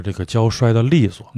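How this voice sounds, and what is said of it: Beijing dialect phrasing. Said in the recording (Chinese): “用北京话”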